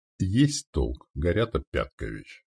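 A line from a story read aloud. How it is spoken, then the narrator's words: Calm. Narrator (Russian): произнес спокойно сотник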